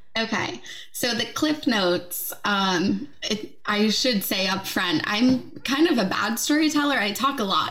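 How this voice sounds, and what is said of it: American accent. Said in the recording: “from the US, as you can probably tell from her accent.”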